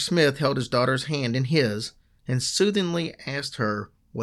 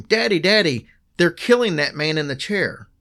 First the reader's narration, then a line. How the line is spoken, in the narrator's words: She screamed